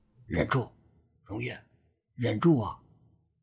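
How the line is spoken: Low, grief-suppressed voice. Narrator (Chinese): 江人强忍悲痛，低声道

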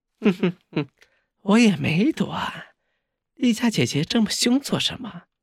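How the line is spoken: Coquettish woman's laugh. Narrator (Chinese): 一声娇笑传出，赫然是雪姬

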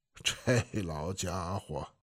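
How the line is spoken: Amused lama's remark. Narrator (Chinese): 活佛笑了，说了句

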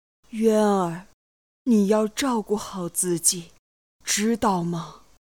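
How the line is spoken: Sobbing brokenly. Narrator (Chinese): 若生也是泪连珍珠，泣不成声

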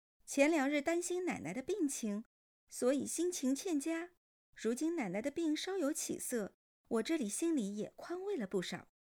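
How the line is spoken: Chuckling, glib fabrication. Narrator (Chinese): 顾叔嘿嘿一笑，信口胡诌

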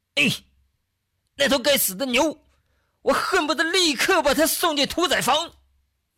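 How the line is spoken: Angry. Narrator (Chinese): 老陈…对着黄章氏满脸怒气地说道

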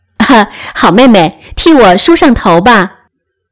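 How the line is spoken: Laughing. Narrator (Chinese): 笑道

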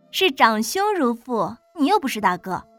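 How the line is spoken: Amused. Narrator (Chinese): 苏风暖好笑

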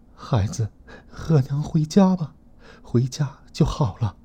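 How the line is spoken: Tearful voice. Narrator (Chinese): 一个熟悉的声音带着哭腔说

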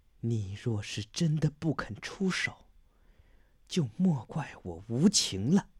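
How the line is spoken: Cold, through gritted teeth. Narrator (Chinese): 一咬牙，冷冷道

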